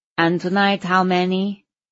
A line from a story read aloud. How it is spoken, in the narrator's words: He asked in a nasally voice